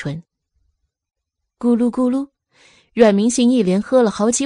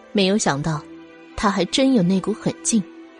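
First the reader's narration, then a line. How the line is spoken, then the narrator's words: Calm, indifferent. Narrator (Chinese): 药王淡淡说道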